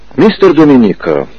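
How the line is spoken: Calm reply. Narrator (Russian): спокойно ответил Гарри

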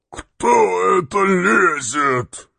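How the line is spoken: Hoarse heavy bass. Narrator (Russian): спросил охрипший тяжелый бас

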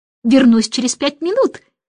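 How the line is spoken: Shouted. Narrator (Russian): крикнул он

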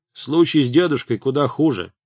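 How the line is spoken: Plain. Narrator (Russian): сказала Аревало

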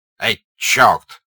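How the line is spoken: Angry shout. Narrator (Russian): злобно вскрикнул Денисов

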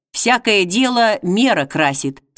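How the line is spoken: Plain. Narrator (Russian): сказал он

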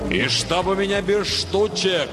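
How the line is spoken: Thundering farewell. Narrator (Russian): прогремел на прощание Нильзиул

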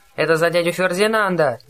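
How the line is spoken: Yelling. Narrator (Russian): завопил в ответ Гровер

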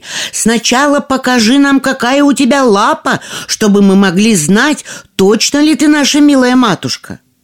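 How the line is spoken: Shouted by young goats. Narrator (Russian): Козляточки закричали

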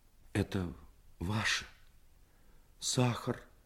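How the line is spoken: Quiet, holding back tears. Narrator (Russian): Тихо сказала она и отвернулась, чтобы скрыть слезы

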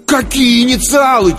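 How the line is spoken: Nearly shouted. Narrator (Russian): чуть ли не крикнул я

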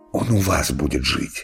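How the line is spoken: Whisper. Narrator (Russian): шептал Иван Иванович

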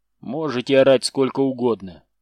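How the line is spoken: Calm statement. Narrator (Russian): спокойно сообщил Седобородый

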